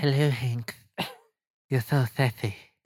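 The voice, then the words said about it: Put-on sexy seductive voice. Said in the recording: “Do you remember the sexy voice I was saying to have?”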